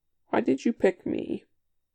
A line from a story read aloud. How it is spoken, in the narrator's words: Top sighs